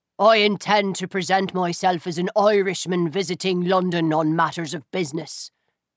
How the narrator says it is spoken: he added, in a nearly impenetrable brogue

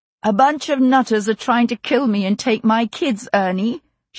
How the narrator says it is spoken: she said, raising her voice over Mandy's wailing

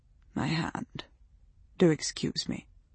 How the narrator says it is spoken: she murmured

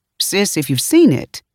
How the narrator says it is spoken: Miles continued, his voice rising by the syllable

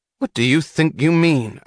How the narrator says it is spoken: asked Lawson, his voice rising

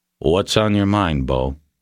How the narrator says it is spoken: Webster asked calmly

